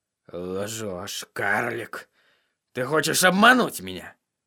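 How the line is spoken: Gloomy grumble. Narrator (Russian): Мрачно буркнул

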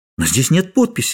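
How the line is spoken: Exclaimed. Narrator (Russian): воскликнула

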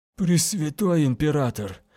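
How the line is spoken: Breathless. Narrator (Russian): Выдохнул Ренхаус

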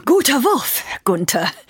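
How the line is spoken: Breathless call. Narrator (German): rief sie etwas atemlos

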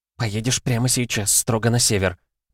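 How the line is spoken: Abrupt whisper. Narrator (Russian): зашептала она без лишних вступлений

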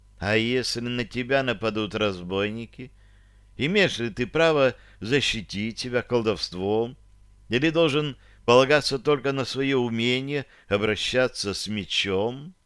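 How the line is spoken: Quiet question. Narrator (Russian): негромко спросила

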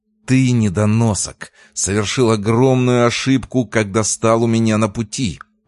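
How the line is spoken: Hissing. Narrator (Russian): прошипел Меркулов

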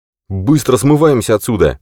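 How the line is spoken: Barked. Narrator (Russian): рявкнул он

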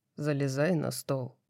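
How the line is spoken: Hoarse rasp. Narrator (Russian): прохрипел Хант

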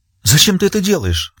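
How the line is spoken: Sobbing. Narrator (Russian): всхлипнула она

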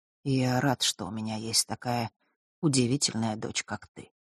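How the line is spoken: Quiet. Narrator (Russian): продолжил он тихо

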